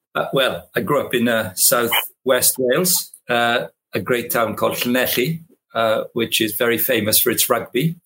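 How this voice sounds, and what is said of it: Welsh accent. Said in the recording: “your Welsh accent”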